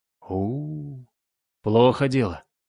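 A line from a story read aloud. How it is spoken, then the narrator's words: Worried, drawn out. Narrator (Russian): озабоченно протянул Хрофт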